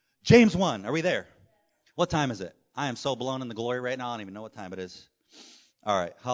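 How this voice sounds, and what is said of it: Usual voice. Nothing is said of it.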